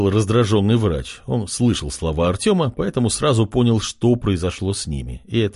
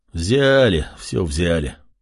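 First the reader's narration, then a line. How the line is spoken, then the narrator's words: Angry grumble. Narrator (Russian): проворчал мужчина, он все еще был зол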